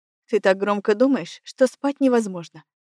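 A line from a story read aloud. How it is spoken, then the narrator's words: Wry snort. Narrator (Russian): хмыкнул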